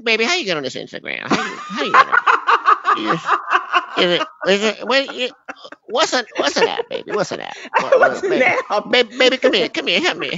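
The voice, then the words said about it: Imitated elderly grandmother voice. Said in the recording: “my impersonation ... Big Mama.”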